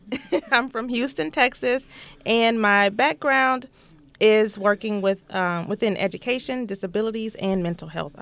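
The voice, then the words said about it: Slight Southern US accent. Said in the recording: “I might have a little southern accent.”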